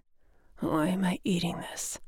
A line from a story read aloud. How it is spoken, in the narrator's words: He muttered